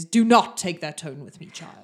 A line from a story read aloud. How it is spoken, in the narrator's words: his voice is booming in your ears and he says